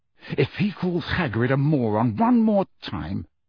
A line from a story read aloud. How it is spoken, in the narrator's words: said Harry through gritted teeth